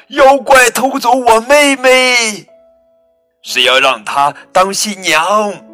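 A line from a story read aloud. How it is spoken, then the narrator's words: Loud shout. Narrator (Chinese): 艾达，他大声叫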